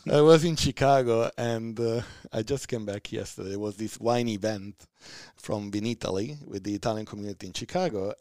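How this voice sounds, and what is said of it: Italian accent. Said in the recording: “Italian accent. ... I love your accent. It's so defined and so distinct.”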